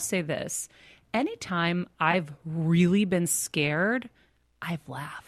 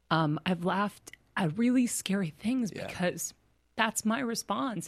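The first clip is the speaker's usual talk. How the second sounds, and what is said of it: Emotional, choked-up voice. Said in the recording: “I'm getting emotional ... I don't know why I'm friggin' getting emotional.”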